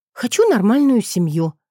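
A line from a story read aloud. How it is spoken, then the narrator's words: Pleading aloud. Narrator (Russian): практически взмолилась я вслух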